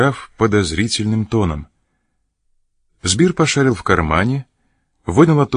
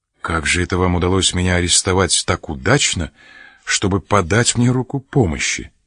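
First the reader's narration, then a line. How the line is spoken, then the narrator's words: Plain. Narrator (Russian): спросил он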